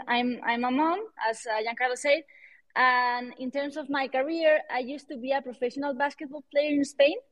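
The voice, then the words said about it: Spanish accent in English. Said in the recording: “I'm Spanish. Well, you can tell that from my accent.”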